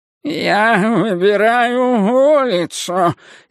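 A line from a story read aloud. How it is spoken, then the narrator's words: Bleating, drink-ravaged voice. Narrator (Russian): испитым голосом блеял один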